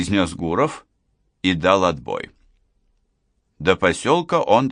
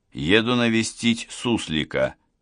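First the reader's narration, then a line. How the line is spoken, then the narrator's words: Plain. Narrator (Russian): ответил Гуров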